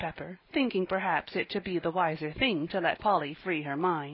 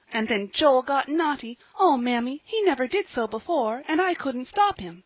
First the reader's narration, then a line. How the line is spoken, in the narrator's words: cried Polly, in great distress